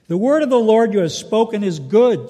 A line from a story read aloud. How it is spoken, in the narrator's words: said Isaiah